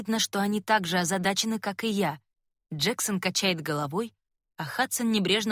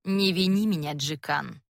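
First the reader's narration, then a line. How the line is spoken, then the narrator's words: Bored tone. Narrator (Russian): говорит кровопускательница Кассия скучающим тоном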